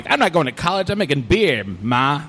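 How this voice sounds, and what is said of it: Old-timey 1930s accent. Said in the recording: “I don't know why I'm doing the 30s accent”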